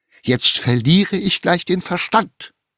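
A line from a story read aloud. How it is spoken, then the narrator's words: Exclamation. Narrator (German): rief Tante Tinne aus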